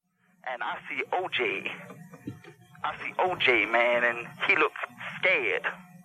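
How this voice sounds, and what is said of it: Exaggerated put-on dialect and cadence. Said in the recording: “What is this accent? ... What this cadence, attempted dialect, ... What would you even compare this voice, accent, cadence to?”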